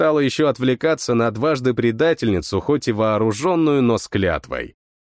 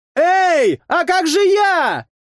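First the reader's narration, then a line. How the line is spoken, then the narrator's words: Distant shout. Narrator (Russian): Кричала с берега мулатка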